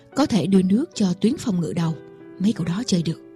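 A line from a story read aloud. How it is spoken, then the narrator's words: Man whispering. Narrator (Vietnamese): ông thì thầm với một trợ lý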